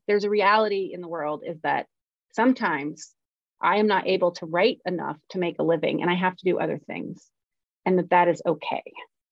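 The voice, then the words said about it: Emotional, near-tearful voice. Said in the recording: “I'm getting emotional again. God, how many times have I cried on the show?”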